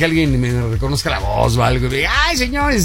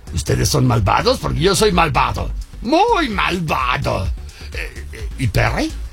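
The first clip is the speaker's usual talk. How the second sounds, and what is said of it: Cartoon villain character voice. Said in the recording (Spanish): “me puede hacer la voz... tienes a Heinz. ¡Pero es él!”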